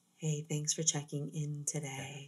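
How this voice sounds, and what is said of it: Sultry, smooth radio DJ voice. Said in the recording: “very sultry woman... She has this very beautiful radio voice.”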